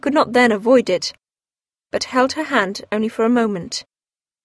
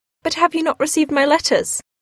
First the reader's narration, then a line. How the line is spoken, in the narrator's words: cried Marianne